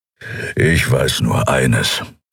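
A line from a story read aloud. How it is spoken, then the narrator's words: Growl from behind. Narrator (German): hörte sie ihn hinter sich knurren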